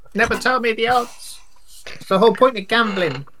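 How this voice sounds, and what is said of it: Game character voice. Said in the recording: “My in-character voice I'm going to be using for this entire game”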